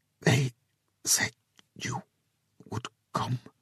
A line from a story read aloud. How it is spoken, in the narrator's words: she whispered, the words awkward in her mouth